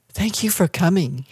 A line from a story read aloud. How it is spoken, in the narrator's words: he whispered in her ear